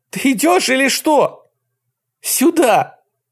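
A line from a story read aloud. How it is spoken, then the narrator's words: Shouting. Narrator (Russian): закричала Кэтлин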